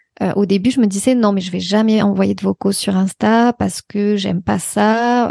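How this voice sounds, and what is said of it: Singsong regional French accent. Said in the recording (French): “ton accent chantant”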